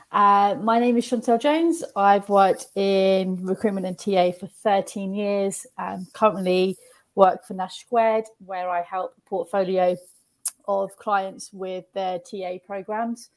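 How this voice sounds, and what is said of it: Voice sounds like a cold. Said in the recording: “I have a bit of a cold”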